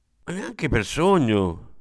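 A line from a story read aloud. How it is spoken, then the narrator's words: Exclamation. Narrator (Italian): esclamò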